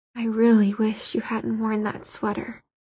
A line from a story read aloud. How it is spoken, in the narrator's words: he muttered into her ear